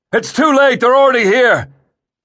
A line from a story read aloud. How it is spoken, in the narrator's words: Dracus bellowed